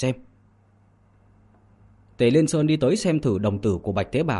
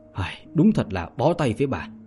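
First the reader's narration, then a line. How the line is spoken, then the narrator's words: Sighing, suppressing amusement. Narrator (Vietnamese): Tề Liên Sơn cúi đầu suy nghĩ, khóe miệng nhếch lên nén cười, nhưng trên mặt lại không để lộ, thở dài mà nói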